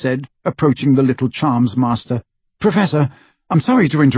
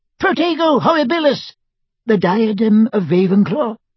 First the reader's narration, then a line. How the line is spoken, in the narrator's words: squeaked Flitwick